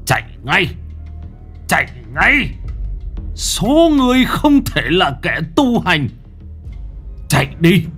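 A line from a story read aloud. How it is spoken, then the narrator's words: Old monk almost screaming. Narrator (Vietnamese): vị sãi giả mà nói như gào lên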